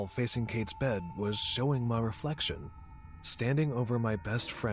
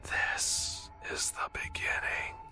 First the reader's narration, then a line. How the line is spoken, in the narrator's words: my reflection whispered, blood trickling out of my mouth as it spoke